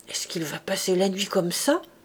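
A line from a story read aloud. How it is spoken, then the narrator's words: Grumbling. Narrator (French): grommelait la Thénardier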